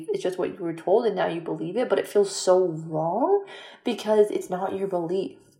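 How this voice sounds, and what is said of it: Excited, higher-pitched, fast speech. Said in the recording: “I'm kind of hyped up right now ... my voice is like at a different octave and speed right now”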